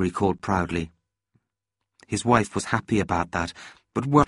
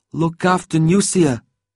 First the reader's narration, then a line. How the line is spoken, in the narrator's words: Dolek called out, trying to sound cheerful